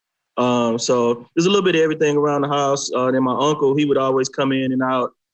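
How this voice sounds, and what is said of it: Country twang. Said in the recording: “some of my twang”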